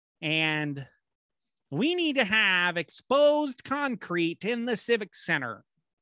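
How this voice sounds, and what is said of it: Bad Paul Heyman impression. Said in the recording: “my horrible Paul Heyman impression”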